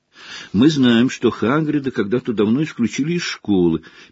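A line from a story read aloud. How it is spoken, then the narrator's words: Sad admission. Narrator (Russian): печально признавал Гарри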